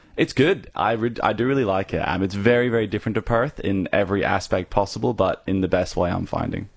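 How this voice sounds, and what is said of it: Irish accent. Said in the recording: “you'll hear my accent, and it is actually originally from Ireland.”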